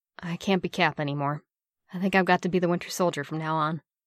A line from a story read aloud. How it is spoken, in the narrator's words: Bucky mumbled